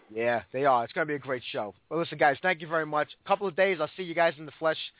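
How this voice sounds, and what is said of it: Hoarse, sick-sounding voice. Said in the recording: “Sorry I'm so sick today, and I'm hoarse”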